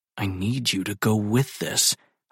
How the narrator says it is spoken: mutter under my breath

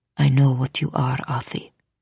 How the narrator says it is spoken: he whispered

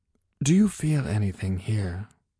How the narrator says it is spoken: She whispered

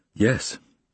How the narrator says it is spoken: I stammered and said

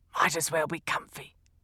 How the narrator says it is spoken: kept saying under his breath

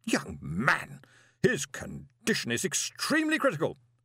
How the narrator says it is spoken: she snapped

